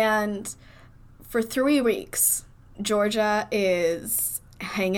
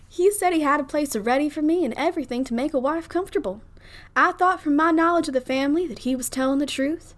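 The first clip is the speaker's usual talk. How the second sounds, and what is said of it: Put-on Southern debutante accent. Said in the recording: “In a Southern debutante accent.”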